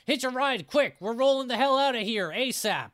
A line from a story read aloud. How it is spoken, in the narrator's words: She rolls up the ramp, not slowing down, but popping up the window to yell